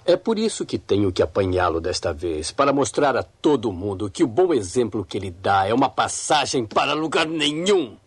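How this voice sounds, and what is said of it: Deep menacing monster-like voice. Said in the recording (Portuguese): “Você falou agora com voz de monstro?”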